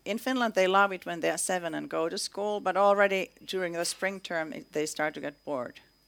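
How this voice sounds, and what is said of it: Finnish-Canadian accent. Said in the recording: “this Finnish-Canadian weird accent”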